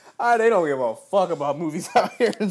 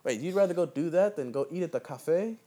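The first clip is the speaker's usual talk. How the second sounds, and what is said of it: Terrible put-on accent. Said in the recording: “that was a terrible accent ... What accent was that”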